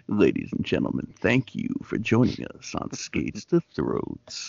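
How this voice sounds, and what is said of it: Announcer-style radio voice. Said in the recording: “my radio voice”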